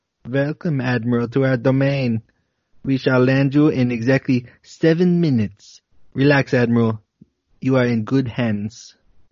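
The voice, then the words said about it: Slight Nordic or Germanic accent. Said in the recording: “a voice comes through in English with what perhaps is a slight Nordic or Germanic accent ... That's a good accent.”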